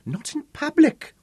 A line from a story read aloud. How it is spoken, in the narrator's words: she would gasp